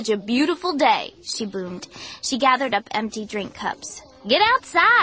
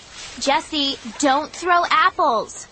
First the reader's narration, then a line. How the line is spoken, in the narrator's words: Sabrina shouted